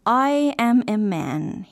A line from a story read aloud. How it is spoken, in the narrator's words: said